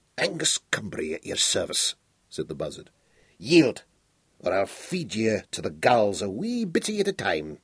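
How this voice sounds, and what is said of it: Scottish-accented character voice. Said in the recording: “the bird Scots accent”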